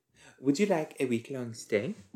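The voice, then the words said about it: Unclear put-on accent. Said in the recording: “I don't know what that accent was supposed to be.”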